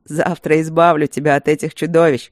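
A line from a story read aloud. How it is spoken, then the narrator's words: Laughing. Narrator (Russian): рассмеялся Люк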